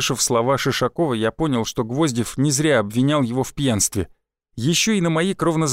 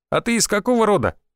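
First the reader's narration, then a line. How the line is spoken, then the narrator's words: Shouting. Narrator (Russian): выкрикнул Шишаков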